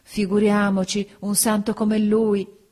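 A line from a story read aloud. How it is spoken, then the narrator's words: Women exclaiming. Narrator (Italian): Le donne esclamarono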